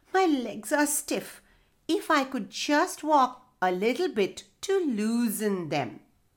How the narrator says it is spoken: groaned Turtle

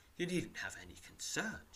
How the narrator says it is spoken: she says softly

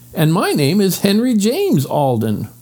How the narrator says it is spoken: cried Henry

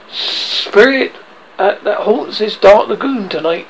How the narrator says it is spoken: cried

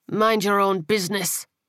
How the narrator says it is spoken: Angel snarled

